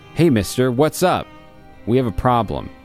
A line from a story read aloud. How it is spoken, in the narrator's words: he said